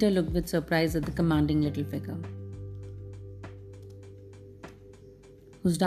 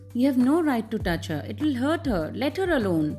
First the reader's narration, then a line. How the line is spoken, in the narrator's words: Then Heidi flung herself against him and cried indignantly